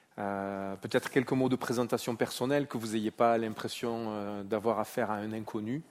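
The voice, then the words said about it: Marseille French accent. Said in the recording (French): “Mon accent trahit que je ne suis pas originaire de la vallée de Joux, où j'habite. Je suis né à Marseille, j'y ai grandi.”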